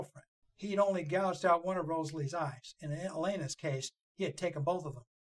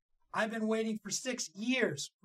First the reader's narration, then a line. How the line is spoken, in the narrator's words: Rosalie snapped